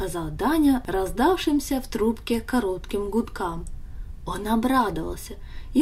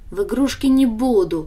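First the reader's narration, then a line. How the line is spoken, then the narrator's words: Snorted. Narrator (Russian): фыркнула Даша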